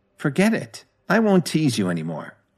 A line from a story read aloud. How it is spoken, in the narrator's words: she said in a slightly playful tone